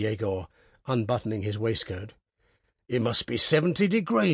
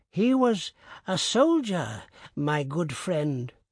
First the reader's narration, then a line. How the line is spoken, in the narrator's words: the old man answered in a weak voice